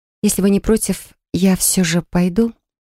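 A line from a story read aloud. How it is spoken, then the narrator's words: Mutter through forced smile. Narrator (Russian): улыбаясь уже сквозь зубы, пробормотала я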